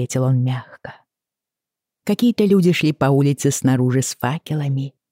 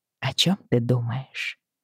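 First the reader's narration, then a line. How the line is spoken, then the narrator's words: Uncertain whisper. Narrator (Russian): прошептала я, неуверенная в том, слышит ли он меня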